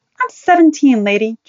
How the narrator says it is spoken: Joni said angrily

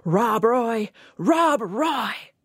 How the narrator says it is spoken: Futilely, the dog's master shouted

